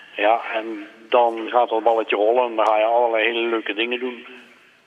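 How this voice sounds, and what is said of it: Limburg Dutch accent. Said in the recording (Dutch): “Alleen dat accent, ja, dat gaat er niet uit, hè? Dat blijft er voor altijd in zitten volgens mij. ... In Limburgs accent”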